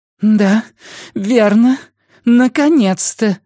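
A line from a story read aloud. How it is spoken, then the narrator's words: Strained insistent voice. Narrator (Russian): сказала Диана надрывным настойчивым голосом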